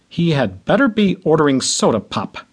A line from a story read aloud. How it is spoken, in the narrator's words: Dad grumbled